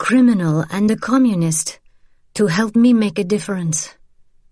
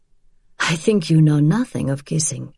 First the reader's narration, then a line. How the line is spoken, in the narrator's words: he said with a sigh